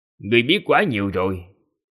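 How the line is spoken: Cold. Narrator (Vietnamese): Hạo Thiên Tôn ... lạnh lùng nói

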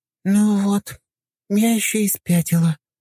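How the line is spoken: Young woman's sigh. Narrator (Russian): вздохнула девушка

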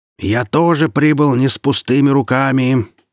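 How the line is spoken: Yelling. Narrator (Russian): заорал Вульфер

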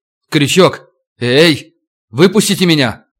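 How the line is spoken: Shouting. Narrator (Russian): крикнул

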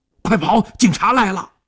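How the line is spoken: Shouting while fleeing. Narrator (Chinese): 一边喊一边飞快地窜向了后巷

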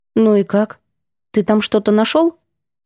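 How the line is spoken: Quiet heartfelt laughter. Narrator (Russian): Ванька негромко, но от души смеясь

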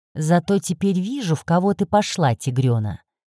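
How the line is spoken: Snorting remark. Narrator (Russian): хмыкнул Норман

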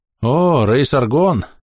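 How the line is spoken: Weary. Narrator (Russian): устало проговорил заметивший меня маг

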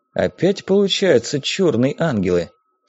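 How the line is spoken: Undertone. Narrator (Russian): вполголоса сказал

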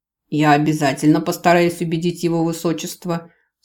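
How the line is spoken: Dry reply. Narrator (Russian): сухо ответствовал лже-канцлер

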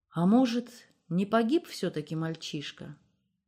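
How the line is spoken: Quiet question. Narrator (Russian): тихо спросил Илья

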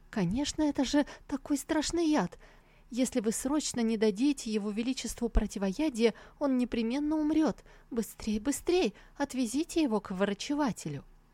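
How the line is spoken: Mock-frightened teasing chatter. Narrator (Russian): дразнить его, притворно испуганно тараторя

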